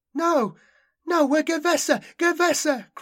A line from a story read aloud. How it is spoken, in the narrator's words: cried Shayna